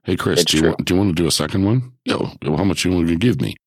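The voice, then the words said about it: Attempted Australian accent. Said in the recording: “That was my attempt at an Australian accent ... I thought you were stroking out ... I was trying to sound like Chris Hemsworth”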